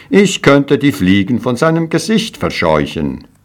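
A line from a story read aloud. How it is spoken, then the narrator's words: Proud, cheerful call. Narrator (German): heiterte sich seine Miene auf und er rief voller Stolz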